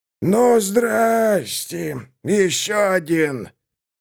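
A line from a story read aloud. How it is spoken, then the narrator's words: Hoarse wheeze. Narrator (Russian): Бродяга прохрипел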